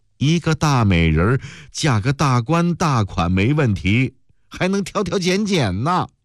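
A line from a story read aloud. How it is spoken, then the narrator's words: Exasperated, amused blurt. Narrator (Chinese): 梅红雨又气又恼又觉得好笑，一句没大没小的话蹦将了出来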